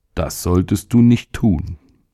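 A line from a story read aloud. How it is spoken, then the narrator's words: Calm. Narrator (German): sagte der Magen ruhig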